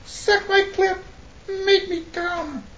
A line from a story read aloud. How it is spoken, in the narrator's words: begged